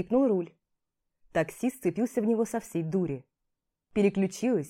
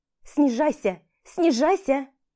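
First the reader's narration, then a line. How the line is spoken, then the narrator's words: Shouted. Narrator (Russian): крикнула я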